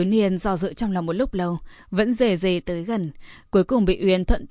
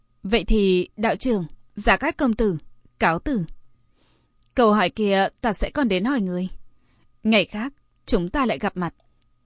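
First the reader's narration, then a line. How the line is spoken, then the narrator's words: Smiling. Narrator (Vietnamese): Nàng mỉm cười nói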